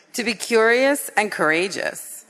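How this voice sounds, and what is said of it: Radio announcer style voice. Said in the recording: “You have a radio announcer voice. That was really good.”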